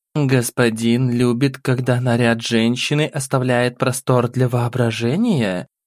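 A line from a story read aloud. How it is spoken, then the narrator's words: Cooing, hiding irritation. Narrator (Russian): Умело спрятав раздражение, проворковала бесовка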